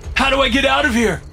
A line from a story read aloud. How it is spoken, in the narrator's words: shout, pain driving my panic